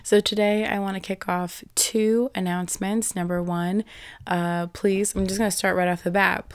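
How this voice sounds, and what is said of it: Hoarse, partly lost voice. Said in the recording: “if you can't tell, my voice has been, I lost my voice this entire week and I'm only operating maybe at about 80% right now ... a compromised voice”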